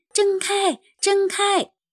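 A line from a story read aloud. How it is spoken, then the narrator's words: Anxious shouting. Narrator (Chinese): 汽车们急得大叫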